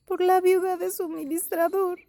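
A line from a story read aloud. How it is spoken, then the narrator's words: Sobbing woman. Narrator (Spanish): dijo ella sollozando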